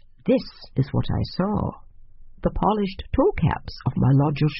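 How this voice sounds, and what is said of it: Usual voice. Nothing is said of it.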